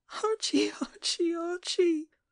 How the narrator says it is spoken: she sobbed

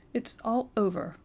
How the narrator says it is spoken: he muttered brokenly

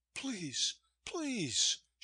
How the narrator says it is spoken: she pleaded

